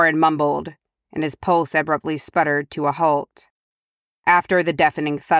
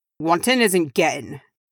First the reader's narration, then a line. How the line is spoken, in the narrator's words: growled Dwalin